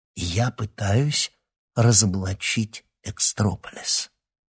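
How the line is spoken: Conspiratorial whisper. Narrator (Russian): заговорщическим шепотом произнесла Марина

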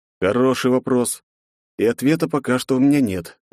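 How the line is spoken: Sighing. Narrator (Russian): вздохнул я

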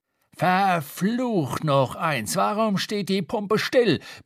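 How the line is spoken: Roaring. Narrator (German): brüllte Radney

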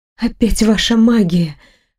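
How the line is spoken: Hoarse voice. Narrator (Russian): хрипло проговорила я

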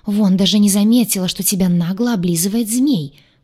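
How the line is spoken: Grumbling. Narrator (Russian): проворчал он

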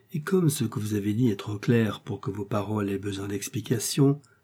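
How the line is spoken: Low-voiced reply. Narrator (French): répondit D'Artagnan à voix basse

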